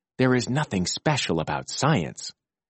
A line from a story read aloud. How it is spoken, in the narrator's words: I whispered